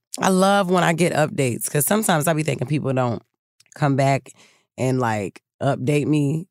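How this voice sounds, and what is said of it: Tired, sluggish voice. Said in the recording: “I sound a little tired because I am tired, child. I am sluggish as hell today.”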